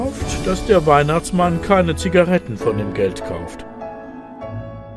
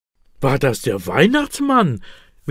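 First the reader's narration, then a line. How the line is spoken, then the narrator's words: Excited question. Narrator (German): will Elias aufgeregt wissen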